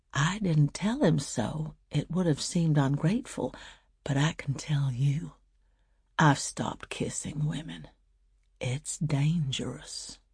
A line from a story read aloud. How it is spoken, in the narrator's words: went on quietly